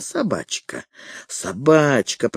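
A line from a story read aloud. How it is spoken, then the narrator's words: Hoarse wheeze. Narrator (Russian): просипел Фредерик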